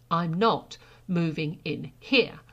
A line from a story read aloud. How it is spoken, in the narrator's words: Sara said again firmly